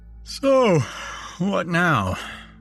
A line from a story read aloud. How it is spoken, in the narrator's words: I said, yawning